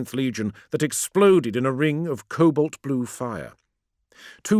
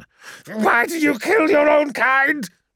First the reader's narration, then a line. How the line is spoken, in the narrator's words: shrieked